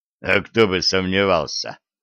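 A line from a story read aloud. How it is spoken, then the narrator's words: Snorting. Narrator (Russian): фыркнул Волк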